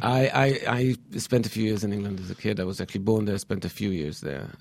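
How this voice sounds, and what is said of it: British-sounding accent. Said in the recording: “you have a British accent ... My accent's very confusing ... the accent remained ... a quasi-European accent”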